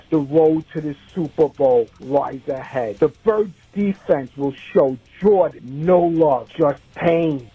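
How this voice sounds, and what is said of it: New York accent. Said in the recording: “He's got a New York accent, that guy”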